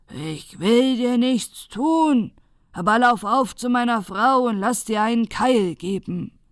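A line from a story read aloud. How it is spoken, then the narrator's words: Shouting. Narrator (German): schreit er dem Mandel zu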